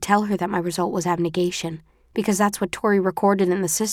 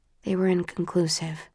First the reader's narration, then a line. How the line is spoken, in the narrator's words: say softly